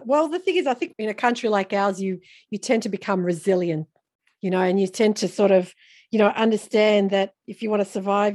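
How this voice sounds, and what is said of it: Australian accent. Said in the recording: “another Australian accent ... You got to love us Aussies”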